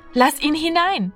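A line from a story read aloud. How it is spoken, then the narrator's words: Called out. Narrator (German): rief Martina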